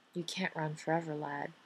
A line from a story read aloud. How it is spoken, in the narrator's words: Carson murmurs